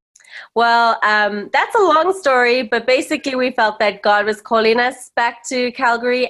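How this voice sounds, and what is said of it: Zimbabwean South African English accent. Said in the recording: “you have a cool accent ... I was actually born in Rhodesia, now known as Zimbabwe, and I grew up in South Africa. So yeah, That's kind of where my accent's from.”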